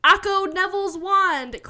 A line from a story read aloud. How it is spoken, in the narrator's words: cried Voldemort